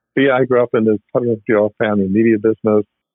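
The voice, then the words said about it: Australian accent. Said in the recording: “You probably figure the accents from somewhere, but it's Australian.”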